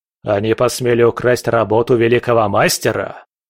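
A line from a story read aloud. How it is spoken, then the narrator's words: Roaring angry father. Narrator (Russian): взревел отец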